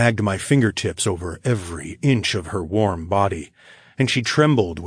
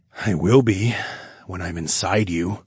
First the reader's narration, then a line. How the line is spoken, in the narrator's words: I growled